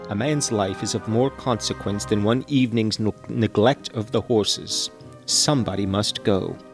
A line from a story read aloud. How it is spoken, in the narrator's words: murmured Mrs